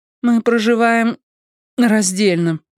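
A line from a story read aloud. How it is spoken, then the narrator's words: Strained, forced out. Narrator (Russian): выдавила Робин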